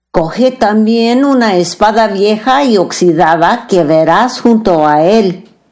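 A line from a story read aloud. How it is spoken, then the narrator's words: Plain. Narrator (Spanish): dijo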